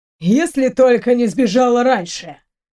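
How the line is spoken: Scoffing snort. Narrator (Russian): хмыкнул Стрельников

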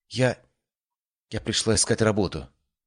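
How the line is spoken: Quiet but firm. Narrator (Russian): тихо, но твердо сказала Селина

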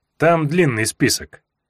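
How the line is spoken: Grim. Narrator (Russian): мрачно сказал я

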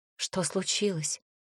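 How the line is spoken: Quiet question. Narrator (Russian): спросила тихо

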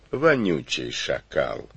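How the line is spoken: Affectionate. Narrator (Russian): ласково спросил хан

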